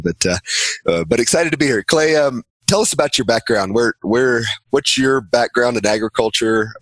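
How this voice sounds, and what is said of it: Slightly hoarse voice. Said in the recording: “I've got a cold. I'm on about day three of it, so if I sound a little hoarse”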